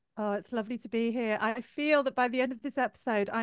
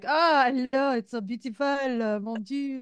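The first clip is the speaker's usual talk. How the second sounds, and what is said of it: Playful imitation of French accent. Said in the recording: “I'm going to be doing your accent because I adore it”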